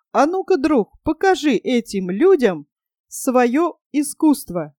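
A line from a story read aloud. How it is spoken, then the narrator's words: Excited exclamation. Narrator (Russian): воскликнул раззадоренный негр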